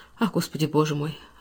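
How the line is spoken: Sorrowful sigh. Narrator (Russian): Она горестно вздохнула

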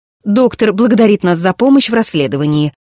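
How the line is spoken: Sharp. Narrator (Russian): резко сказала она

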